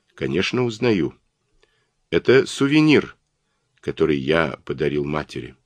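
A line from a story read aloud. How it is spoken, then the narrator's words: Calm reply. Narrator (Russian): Он спокойно ответил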